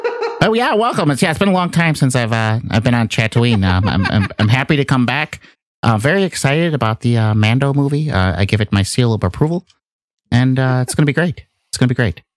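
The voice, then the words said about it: George Lucas impression. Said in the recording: “It's George fucking Lucas. ... do the voice.”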